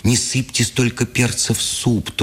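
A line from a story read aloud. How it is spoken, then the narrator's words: Thin-voiced pleading. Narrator (Russian): тоненьким голосом просила Бакунина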